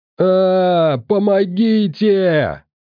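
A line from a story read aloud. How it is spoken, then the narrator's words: Yell for help. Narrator (Russian): заорал Толян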